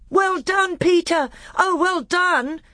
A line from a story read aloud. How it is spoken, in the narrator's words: shouted Edmund